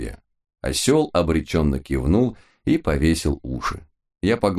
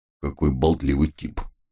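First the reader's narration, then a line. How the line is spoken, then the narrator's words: Gruff mutter. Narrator (Russian): буркнул мой пес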